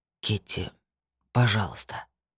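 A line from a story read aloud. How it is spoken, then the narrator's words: Hoarse plea. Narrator (Russian): попросил он сипло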